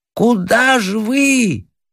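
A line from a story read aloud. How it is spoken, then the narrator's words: Bewildered shout. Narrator (Russian): кричал в недоумении дачник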